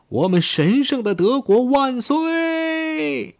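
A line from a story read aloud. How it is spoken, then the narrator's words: Shouting. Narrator (Chinese): 施道芬堡喊道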